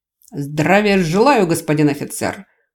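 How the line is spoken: Loud crisp rapped out. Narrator (Russian): Громко отчеканил он

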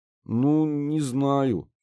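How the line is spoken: Mumbling. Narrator (Russian): промямлил Кир

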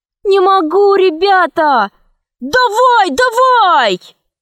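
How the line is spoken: Others shouting. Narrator (Russian): кричали другие

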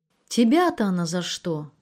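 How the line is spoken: Almost plaintive question. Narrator (Russian): почти жалобно спросил Анатолий

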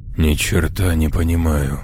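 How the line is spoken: Young man muttering. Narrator (Russian): пробормотал Бакстер, молодой мужчина, 30 лет

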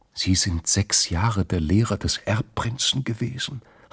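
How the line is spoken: Whispering. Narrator (German): hatte sie schließlich geflüstert

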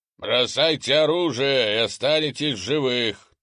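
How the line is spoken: Booming shout. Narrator (Russian): трубным голосом кричал вражеский командир

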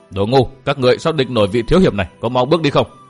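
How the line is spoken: Harsh shout. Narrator (Vietnamese): người đó quát

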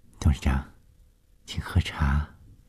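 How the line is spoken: Soft, still shaken. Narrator (Chinese): 冷小丽被眼前发生的事惊得心颤颤的，柔声地说

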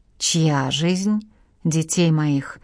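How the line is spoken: Moaning. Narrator (Russian): простонал Тюжев

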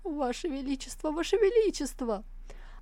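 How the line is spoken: Reverent whimpering soldier. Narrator (Russian): Вояка, с благоговением на лице заскулил

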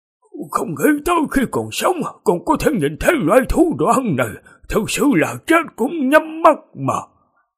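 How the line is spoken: Trembling old voice. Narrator (Vietnamese): Một vị thái y tóc trắng xóa run rẩy nói

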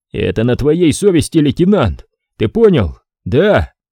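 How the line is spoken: Angry shout. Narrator (Russian): крикнул я со злостью на взводного

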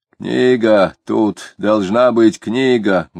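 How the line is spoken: Explaining with loud smack. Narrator (Russian): громко чмокнув, объяснил офицер

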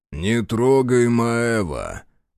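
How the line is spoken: Low booming. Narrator (Russian): прогудел Захар

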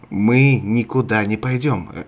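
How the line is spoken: Sharp. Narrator (Russian): резко ответила Мария

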